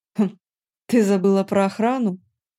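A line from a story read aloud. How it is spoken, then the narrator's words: Mocking question. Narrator (Russian): насмешливо поинтересовался Дармат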